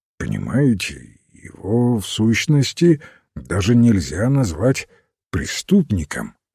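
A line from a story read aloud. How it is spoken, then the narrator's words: Plain. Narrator (Russian): ответил Бирн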